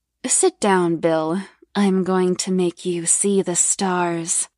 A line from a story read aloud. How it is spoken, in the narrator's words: purred